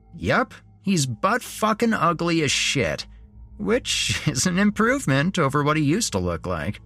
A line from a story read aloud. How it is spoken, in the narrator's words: Jeremy said with a laugh